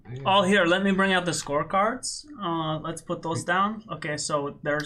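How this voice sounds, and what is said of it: Sarcastic tone. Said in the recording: “did I sound sarcastic?”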